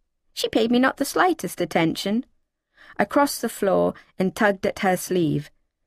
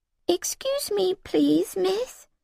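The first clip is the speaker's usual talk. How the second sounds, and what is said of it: Tiny, raised-pitch timid voice. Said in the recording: “Voice up half an octave ... I put on my tiniest voice.”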